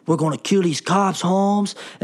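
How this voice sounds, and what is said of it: Exaggerated Cholo accent. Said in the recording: “I'm doing this kind of racist Cholo accent because that's how it is in the movie”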